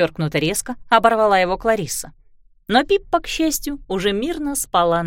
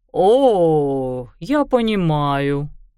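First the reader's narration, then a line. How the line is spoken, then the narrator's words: Drawl. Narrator (Russian): протянул Хьюго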